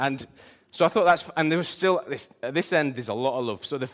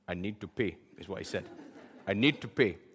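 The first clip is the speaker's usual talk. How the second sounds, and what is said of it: Imitates another person's accent. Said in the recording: “I'm going to try and do his accent. It's a bit Nelson Mandela ish”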